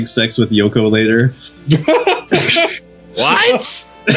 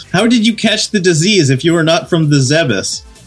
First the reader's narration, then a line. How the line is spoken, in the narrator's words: Scrooge shout